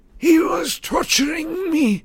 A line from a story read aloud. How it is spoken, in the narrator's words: he gasped